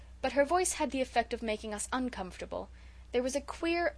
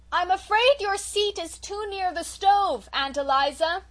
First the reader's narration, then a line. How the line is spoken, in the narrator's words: shouted Felicity